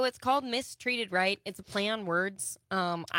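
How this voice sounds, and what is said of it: Usual voice. Nothing is said of it.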